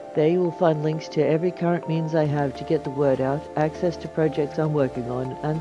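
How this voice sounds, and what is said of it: Semi-Australian accent. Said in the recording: “the melodious sound of my voice ... rendered in a semi-Australian accent”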